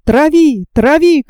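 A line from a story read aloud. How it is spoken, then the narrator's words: Young man shouting. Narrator (Russian): кричал молодой капитан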